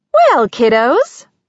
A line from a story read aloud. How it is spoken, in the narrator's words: Kate chirped